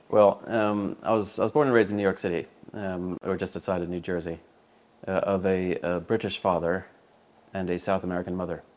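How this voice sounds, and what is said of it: East Coast American accent, British-influenced. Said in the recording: “you have a very odd accent, and I cannot place you ... it's an East Coast accent, uh, rather modified by having li- lived an awful long time in the UK”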